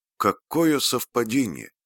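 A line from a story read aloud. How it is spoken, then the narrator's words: Plain. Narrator (Russian): сказала Фрэнни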